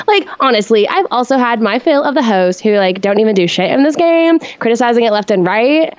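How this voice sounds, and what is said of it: Reads aloud in a put-on accent. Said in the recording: “I appreciate that accent.”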